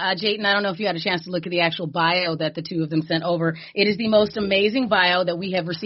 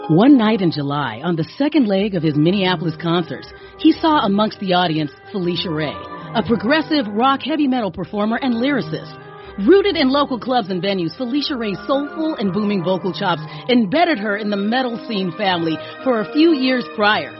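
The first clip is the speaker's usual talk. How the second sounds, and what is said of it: Radio DJ voice. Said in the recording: “I'm going to bring my radio DJ voice out for you here.”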